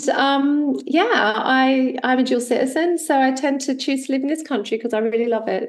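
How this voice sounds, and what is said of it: Australian accent. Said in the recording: “I grew up in Australia, as you can tell from my accent”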